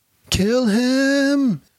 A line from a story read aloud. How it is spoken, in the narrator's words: yelled Ubaydullah